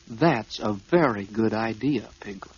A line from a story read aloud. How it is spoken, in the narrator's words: said Pooh